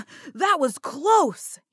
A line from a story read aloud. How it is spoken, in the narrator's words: he shouted